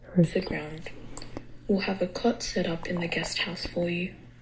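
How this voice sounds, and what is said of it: Subtle accent. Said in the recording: “That was a subtle, I feel, accent”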